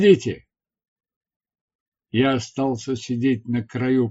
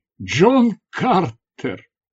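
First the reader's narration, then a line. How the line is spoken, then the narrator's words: Exclamation. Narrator (Russian): воскликнул я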